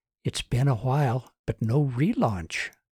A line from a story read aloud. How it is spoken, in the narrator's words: Susan whispered